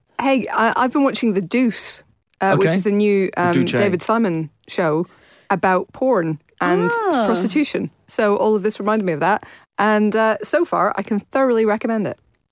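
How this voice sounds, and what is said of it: Speaker's own noticeable accent. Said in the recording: “I'm trying to pronounce it so people will understand it despite my accent.”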